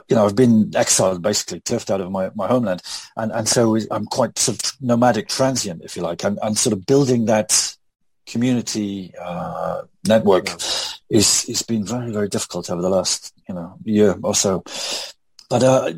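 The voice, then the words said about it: British (Welsh) accent. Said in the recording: “This with an English accent. ... I have to keep explaining I'm Welsh.”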